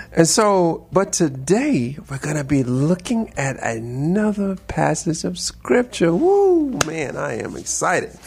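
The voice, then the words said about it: Upbeat, energetic voice. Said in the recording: “my voice is a little bit more upbeat today”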